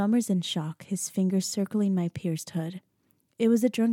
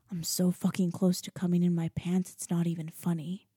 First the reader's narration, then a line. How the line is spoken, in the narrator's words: he mutters